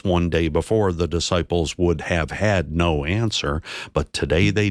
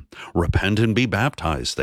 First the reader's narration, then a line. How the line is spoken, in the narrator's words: they said